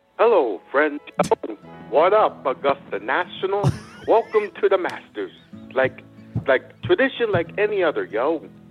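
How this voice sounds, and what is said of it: Jim Nantz impression, own style. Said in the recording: “do a Masters impersonation ... Give him a little Jim Nance ... I need to hear ... do Jim Nance ... I do it in my style”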